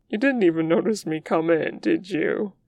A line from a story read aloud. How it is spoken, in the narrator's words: he asks, clearly smothering laughter